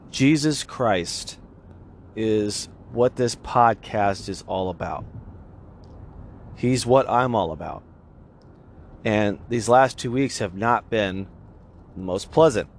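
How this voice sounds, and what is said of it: Congested voice from a cold. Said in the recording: “You can probably tell in my voice, I'm still kind of on the tail end of a cold.”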